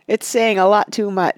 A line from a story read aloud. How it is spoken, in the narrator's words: said Frodo, and he laughed, a long, clear laugh from his heart